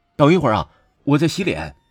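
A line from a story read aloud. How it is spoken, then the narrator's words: Loud reply. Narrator (Chinese): 我只好大声的应道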